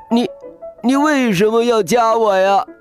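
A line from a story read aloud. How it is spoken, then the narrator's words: Yelling in pain. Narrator (Chinese): 笑天天疼得大喊起来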